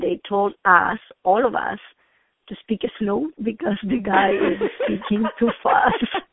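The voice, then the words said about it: Speaks with a noticeable foreign accent. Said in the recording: “you have a beautiful accent ... that gorgeous, very intriguing, sexy accent that makes you mysterious”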